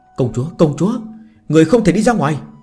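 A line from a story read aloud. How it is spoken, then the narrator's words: Woman shouting, chasing. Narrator (Vietnamese): Phía sau lưng đang đuổi theo nữ tử hét lên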